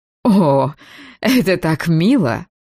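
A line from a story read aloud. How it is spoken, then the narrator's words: Melodious laugh. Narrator (Russian): Тереза мелодично рассмеялась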